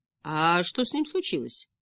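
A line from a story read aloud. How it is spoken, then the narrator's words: Grumbling dragon. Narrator (Russian): пробурчал дракон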